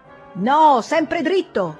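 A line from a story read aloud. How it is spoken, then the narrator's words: Shouting. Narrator (Italian): gridò la stessa voce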